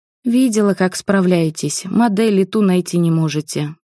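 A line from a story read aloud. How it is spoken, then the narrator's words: Sigh. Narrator (Russian): вздохнула я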